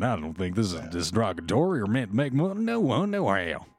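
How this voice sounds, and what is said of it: Put-on southern accent. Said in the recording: “Every time you put on a southern accent”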